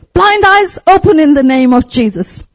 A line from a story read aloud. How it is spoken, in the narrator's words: So he shouted